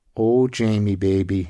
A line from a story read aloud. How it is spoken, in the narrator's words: she sighed, her breath teasing his ear